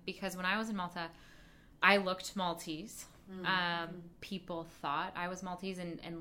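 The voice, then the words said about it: American accent. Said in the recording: “my accent is American”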